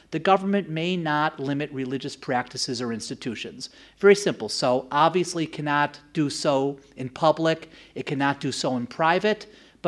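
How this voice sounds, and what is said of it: American accent. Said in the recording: “as you might have noticed from my accent, I am originally from the US.”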